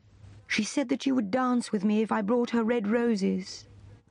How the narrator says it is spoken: cried the young student

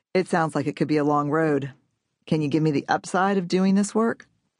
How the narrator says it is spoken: He laughed and said

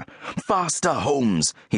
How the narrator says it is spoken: he thought frantically

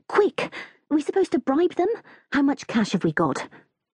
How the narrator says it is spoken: mutter urgently

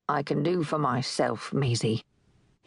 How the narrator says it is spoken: he sighed

